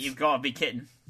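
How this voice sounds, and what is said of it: Decent put-on Australian accent. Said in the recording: “Whoa, that one's not bad. ... That was not a bad Australian”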